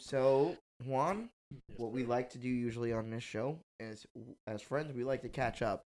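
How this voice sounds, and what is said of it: Hoarse voice. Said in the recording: “my voice is a little hoarse”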